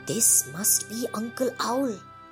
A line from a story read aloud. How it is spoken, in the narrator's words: they whisper